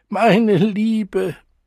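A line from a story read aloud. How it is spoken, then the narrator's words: Gushing out between sobs. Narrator (German): Die Worte sprudelten unter Schluchzen hervor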